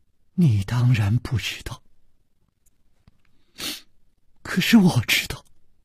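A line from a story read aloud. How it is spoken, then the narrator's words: Soft sigh. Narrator (Chinese): 公平轻轻地叹了一口气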